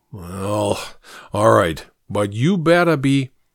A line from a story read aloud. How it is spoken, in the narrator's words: With a sigh, the original said